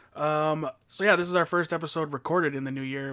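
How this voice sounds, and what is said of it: Voice affected by illness. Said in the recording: “Sorry for my voice. I'm fighting a few bugs”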